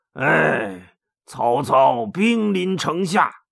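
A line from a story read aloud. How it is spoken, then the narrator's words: Sighing. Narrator (Chinese): 魏续也叹了口气说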